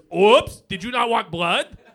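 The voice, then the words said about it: Voices a cheap needle character. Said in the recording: “my impression of the needles you guys use”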